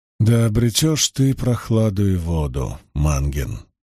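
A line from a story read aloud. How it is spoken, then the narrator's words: Sad reply. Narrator (Russian): печально отозвался Ранд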